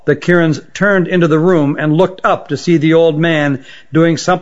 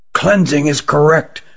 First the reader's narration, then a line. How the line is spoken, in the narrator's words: whispered Rugum to Jilin